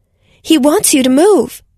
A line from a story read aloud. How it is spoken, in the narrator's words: Anna shouted